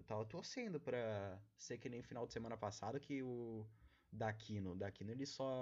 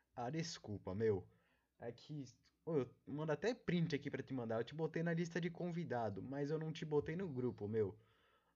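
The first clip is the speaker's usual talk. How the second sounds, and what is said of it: Put-on São Paulo Brazilian accent. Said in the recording (Portuguese): “o Daquino não fala assim. Mas eu gosto de de. de imitar as pessoas com esse sotaque. Acho que é meio paulista, né?”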